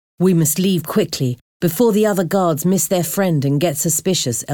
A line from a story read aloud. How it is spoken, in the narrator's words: Elzevir said